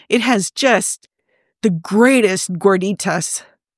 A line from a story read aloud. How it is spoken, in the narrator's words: he groans, low and sinful